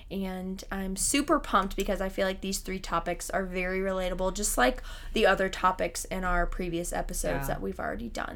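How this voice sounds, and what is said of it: Slightly raspy voice. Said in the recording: “my voice sounds... a little raspy ... She is a little rasped today ... my voice is a little raspy”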